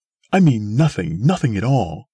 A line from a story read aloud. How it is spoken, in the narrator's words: cried the woman